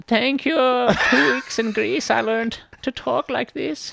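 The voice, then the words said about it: Put-on Greek accent. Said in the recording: “your Greek accent is perfect ... it sounds great”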